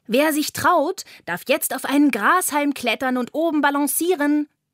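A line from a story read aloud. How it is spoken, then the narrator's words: Call. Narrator (German): ruft Carla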